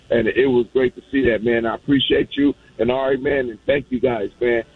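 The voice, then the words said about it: Hoarse, worn-out voice. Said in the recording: “I got to go get some honey now. My voice is gone.”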